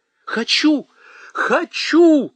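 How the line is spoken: Almost sobbing. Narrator (Russian): чуть ли не рыдая

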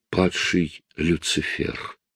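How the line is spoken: Whisper. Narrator (Russian): прошептала она

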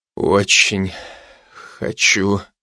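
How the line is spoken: Breathed out. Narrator (Russian): выдохнул я

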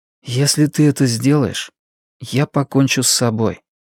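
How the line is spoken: Quiet. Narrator (Russian): сказал Веденеев тихо

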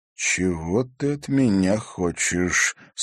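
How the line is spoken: Calm question. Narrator (Russian): спокойно спросил Егор

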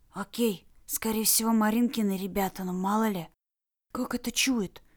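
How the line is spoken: Quick astonished whisper. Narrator (Russian): Быстрым изумленным шепотом спросил Кирилл у Лары

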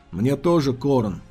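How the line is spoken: Weary agreement. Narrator (Russian): устало согласился Антилас

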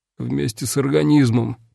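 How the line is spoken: Hoarse rasp. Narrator (Russian): прохрипел я

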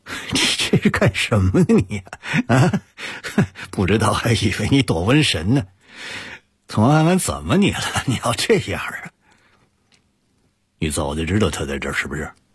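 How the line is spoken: Half-joking tone. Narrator (Chinese): 陆泽熙半开玩笑地说

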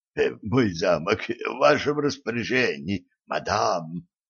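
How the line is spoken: Hoarse, strained. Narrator (Russian): прохрипел

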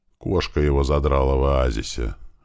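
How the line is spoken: Sad reply. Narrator (Russian): грустно ответил Страйк

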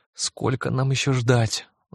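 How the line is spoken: Groaning. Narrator (Russian): застонала Лиззи

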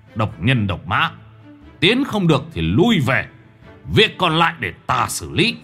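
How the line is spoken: Harsh, stern voice. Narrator (Vietnamese): Lão gằn giọng

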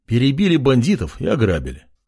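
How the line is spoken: Calm statement. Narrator (Russian): спокойно заявил король

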